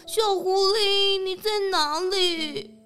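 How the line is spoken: Worried loud call. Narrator (Chinese): 吉比大熊更担心了，大声的喊着

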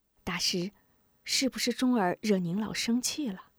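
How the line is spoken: Whispered question. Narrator (Chinese): 吴夫人站在吴明霞身旁，悄声问道

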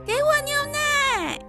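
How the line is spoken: Very loud shout. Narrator (Chinese): 喊这么大声，他自己都吓了一跳

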